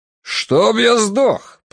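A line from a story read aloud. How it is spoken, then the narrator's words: Thunderous gunshot-like boom. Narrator (Russian): прогремел голос Фентриса, подобно выстрелу из дробовика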